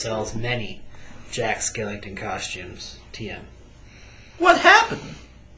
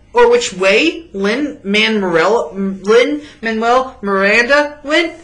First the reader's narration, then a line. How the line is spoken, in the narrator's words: One shouts inquisitively at you